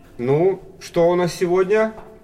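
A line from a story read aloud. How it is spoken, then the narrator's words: Loud. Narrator (Russian): громко сказал Максим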